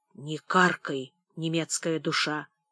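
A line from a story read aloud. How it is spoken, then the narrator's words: Whispered reply. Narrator (Russian): тоже шепотом ответил Мышников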